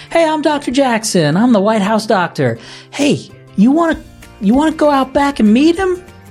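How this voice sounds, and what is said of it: Put-on charming Southern accent. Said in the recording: “he's got this real charming Southern accent”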